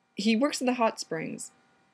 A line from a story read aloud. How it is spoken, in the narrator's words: the innkeeper blurted